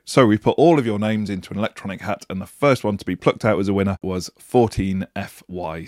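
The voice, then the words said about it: Voice not its usual self. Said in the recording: “my voice isn't quite what it normally is this week, I have been nursing an unbelievably difficult cough”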